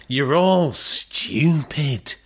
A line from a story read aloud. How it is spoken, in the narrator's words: George sneered